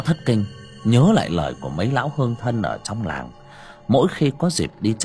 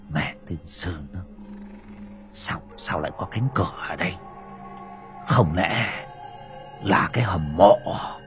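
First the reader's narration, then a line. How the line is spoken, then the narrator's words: Surprised, suspicious muttering. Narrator (Vietnamese): Lão Bảy sau giây phút ngạc nhiên thì lầm bầm nghi hoặc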